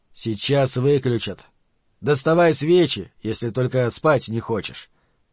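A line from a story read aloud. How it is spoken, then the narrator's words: Grumbling. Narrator (Russian): проворчал Каттерсон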